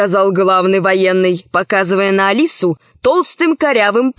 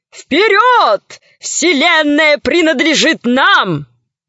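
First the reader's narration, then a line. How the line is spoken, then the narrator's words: Soldiers shouting. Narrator (Russian): Военные кричали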